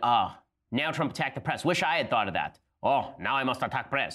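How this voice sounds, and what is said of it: Vague put-on foreign accent. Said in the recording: “I don't even know what that accent was”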